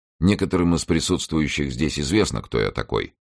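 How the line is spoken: Usual even tone. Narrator (Russian): отвечал тот обычным своим тоном

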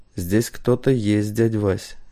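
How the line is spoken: Quiet. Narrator (Russian): негромко сказал он

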